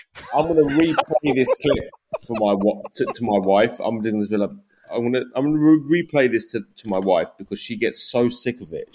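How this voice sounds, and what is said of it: British accent. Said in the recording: “your sultry British voice ... swoon, British accent ... He sounds so sexy and smart”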